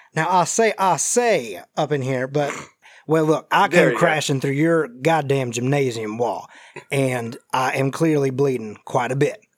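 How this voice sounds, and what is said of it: Southern drawling character voice. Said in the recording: “I got to take a second to get back into this voice. I'm starting to get into, like, Colonel Sanders' Foghorn Leghorn sound here.”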